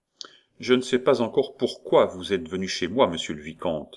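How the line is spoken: Curt. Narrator (French): dit sèchement Roland

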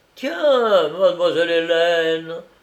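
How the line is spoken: Exclamation. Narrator (French): s'écria Pérole

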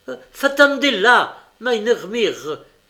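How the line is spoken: Shouted. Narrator (French): cria

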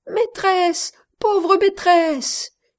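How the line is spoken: Exclaimed. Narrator (French): s'écriait-elle

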